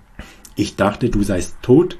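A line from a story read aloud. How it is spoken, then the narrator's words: Harsh, brutal. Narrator (German): sagte Maria schroff, mit einer Brutalität, die mich erstarren ließ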